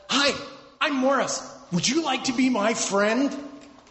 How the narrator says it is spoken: Rather excitedly, Morris said

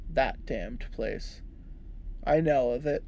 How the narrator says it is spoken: I said coldly

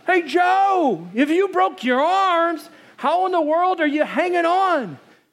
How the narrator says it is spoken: They yelled out

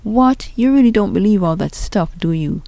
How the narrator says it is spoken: Jamal exclaimed

